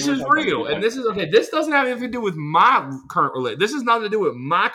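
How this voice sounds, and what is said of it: Usual voice. Nothing is said of it.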